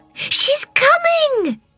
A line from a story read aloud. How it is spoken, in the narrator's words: cried Tiny, running back to his seat